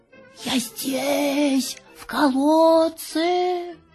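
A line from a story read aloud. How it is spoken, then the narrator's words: Muffled distant call. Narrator (Russian): из глубины колодца мамин голос глухо позвал его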